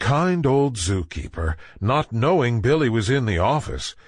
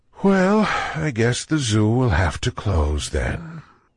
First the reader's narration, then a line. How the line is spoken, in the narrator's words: The keeper sighing sadly, he said